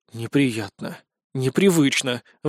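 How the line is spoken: Sighing. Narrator (Russian): вздохнул я

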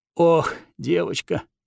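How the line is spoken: Heavy sigh, abbot. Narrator (Russian): тяжело вздохнул настоятель

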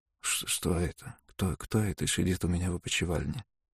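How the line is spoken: Sick man's indistinct mumble. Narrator (Russian): Немного поуспокоившись, больной невнятно пробормотал

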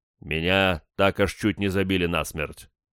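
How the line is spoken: Gloomy. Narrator (Russian): мрачно ответил я

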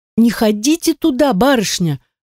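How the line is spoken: Pleading. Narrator (Russian): взмолилась Аннетта

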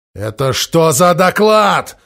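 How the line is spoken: Roar. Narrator (Russian): взревел Гуда

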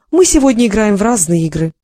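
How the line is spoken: Said, then laughed. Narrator (Russian): сказала она и засмеялась

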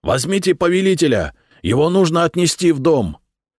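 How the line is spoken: Shouted. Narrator (Russian): Он крикнул

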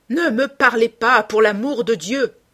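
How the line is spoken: Angry shout, stamping. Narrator (French): cria Dorian, frappant du pied

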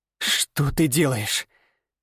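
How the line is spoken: Hissed. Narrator (Russian): прошипела она

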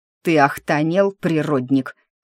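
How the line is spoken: Barked. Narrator (Russian): рявкнул Морис

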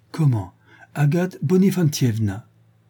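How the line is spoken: Exclaimed. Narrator (French): s'écria Karpenetnov

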